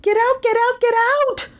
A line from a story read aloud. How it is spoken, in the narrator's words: Melissa screamed